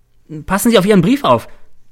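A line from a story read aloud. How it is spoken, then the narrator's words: Called out. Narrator (German): ruft mir Cäsar zu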